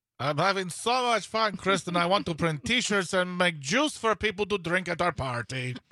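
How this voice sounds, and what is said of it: Made-up accented cartoon villain voice. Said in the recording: “Accent? I don't know. I'm making voices up. I sound like Gru from Despicable Me. ... That is actually pretty good.”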